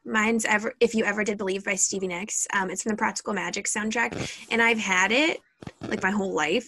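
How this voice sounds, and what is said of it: Cracky, rough voice. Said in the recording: “my voice is like so cracky lately”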